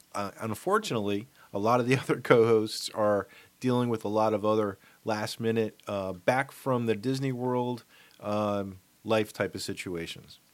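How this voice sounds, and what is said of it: Congested voice from a cold. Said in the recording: “As you might be able to tell from my voice, I have gotten a bad, bad cold.”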